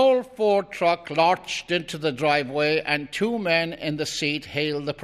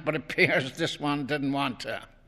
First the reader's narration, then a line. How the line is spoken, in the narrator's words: said Len, chuckling again